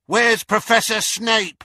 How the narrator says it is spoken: shouted a girl from the Slytherin table

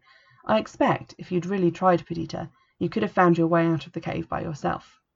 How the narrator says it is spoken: added kindly

